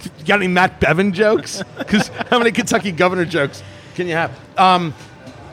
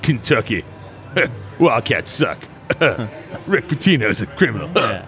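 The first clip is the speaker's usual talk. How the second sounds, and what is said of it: Imitates another person's voice. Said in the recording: “Do you have to say it like that? ... that was a pretty good impression. Pretty good.”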